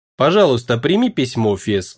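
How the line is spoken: Calm. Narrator (Russian): спокойно сказал император

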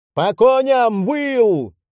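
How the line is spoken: Yelling. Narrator (Russian): заорал Джекоб

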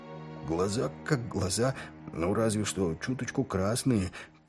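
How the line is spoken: Muttered under breath. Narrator (Russian): пробормотал себе под нос Крюк

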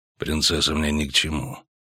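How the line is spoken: Calm. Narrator (Russian): спокойно сказал Геральт

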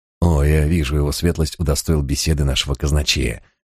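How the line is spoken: Old man's whisper. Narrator (Russian): прошептал старый брат Фокс

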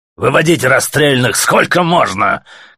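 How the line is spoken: Faint shout over ringing. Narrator (Russian): крикнул еле-еле сквозь звон майор тюремщикам

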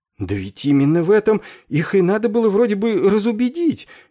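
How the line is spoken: Uncertain babbling. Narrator (Russian): неуверенно пролепетал капеллан

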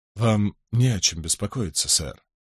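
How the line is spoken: Soft reassuring. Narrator (Russian): мягко произнес Питер Боун

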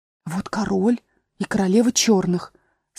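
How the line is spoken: Fearful whisper. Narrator (Russian): сказала Алиса шепотом, боясь их спугнуть

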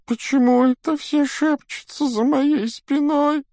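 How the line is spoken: Whining whimper. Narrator (Russian): захныкала Миртл

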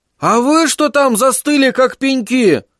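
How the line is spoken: Shouted. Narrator (Russian): крикнул нам Верн

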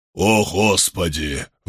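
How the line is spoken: Groaning. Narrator (Russian): простонал Брайтман

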